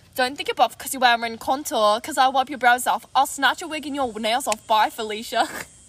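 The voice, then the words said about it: Put-on accent. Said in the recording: “Wait, we have to do an accent.”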